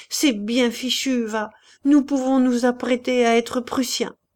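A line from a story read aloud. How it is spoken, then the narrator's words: Exclaimed. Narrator (French): s'écria Maurice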